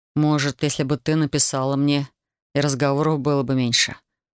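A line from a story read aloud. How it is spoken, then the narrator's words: Cold. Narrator (Russian): холодно произнес он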